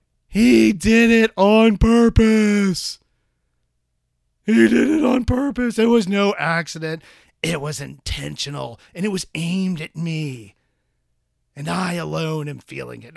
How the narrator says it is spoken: He would scream back at him

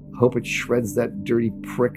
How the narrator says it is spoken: Pillhead mutters

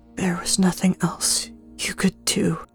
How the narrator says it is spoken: she whispered to Zareth and herself

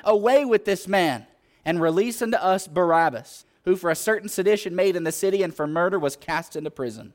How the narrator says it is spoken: they cried out all at once, saying

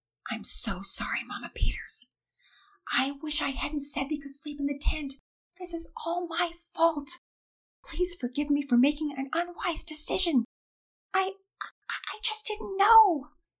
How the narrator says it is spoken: He whispered

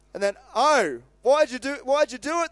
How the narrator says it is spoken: They groaned

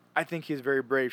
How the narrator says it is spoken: she said

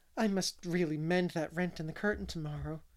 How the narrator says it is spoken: she said anxiously

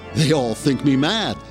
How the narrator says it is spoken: the man giggled

